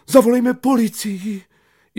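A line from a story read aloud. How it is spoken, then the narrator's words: Cried out. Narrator (Czech): paní učitelka vykřikla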